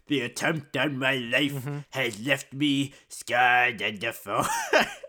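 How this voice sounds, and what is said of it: Emperor Palpatine impression. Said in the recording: “I've done better Emperor Palpatine.”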